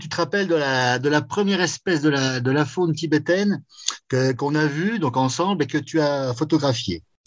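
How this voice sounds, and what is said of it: Vosges regional French accent. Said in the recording (French): “un échantillon du bon accent vosgien”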